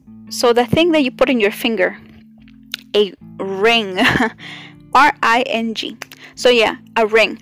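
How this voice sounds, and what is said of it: Non-native English accent. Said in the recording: “I can't speak my English, you know, but my accent.”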